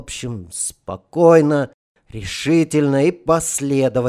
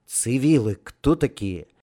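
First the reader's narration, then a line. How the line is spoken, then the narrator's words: Quiet quick question. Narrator (Russian): тихо и быстро спросил Романов у Муромцева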